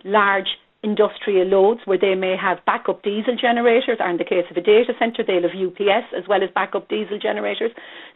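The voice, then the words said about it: Cork Irish accent. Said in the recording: “you can hear from my accent, I'm from Cork”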